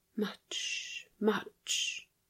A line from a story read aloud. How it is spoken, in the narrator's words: she whispered